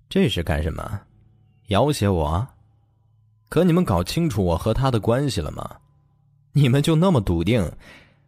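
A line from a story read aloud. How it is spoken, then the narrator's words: Contemptuous laugh. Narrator (Chinese): 他轻蔑一笑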